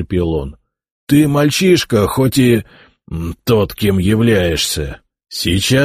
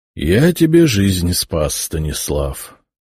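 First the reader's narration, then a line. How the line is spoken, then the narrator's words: Tired. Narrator (Russian): устало сказал князь-епископ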